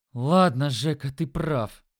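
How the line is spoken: Grumbling mutter. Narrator (Russian): буркнул он

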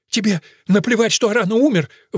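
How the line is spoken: Shouted. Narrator (Russian): выкрикнул он

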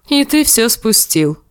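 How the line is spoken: Laughing. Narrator (Russian): засмеялся Харвин

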